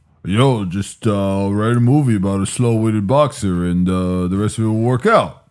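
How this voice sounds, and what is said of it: Sylvester Stallone impression. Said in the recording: “Sylvester Stallone ... I'm so impressed right now with your impression.”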